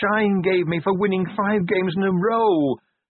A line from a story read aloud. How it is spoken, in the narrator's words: he wailed